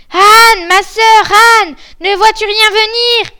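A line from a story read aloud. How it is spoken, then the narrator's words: Shouting. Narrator (French): Et puis elle criait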